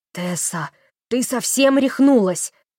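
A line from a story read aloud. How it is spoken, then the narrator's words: Pale frightened hiss. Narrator (Russian): прошипел побледневший Эллиот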